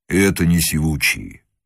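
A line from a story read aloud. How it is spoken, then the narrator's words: Low quiet rumble. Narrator (Russian): негромко прогудел наконец казак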